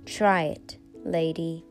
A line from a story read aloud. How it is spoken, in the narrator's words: told her in an icy tone